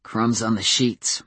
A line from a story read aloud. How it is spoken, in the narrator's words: muttered Adam